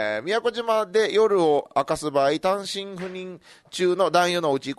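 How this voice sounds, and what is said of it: Usual voice. Nothing is said of it.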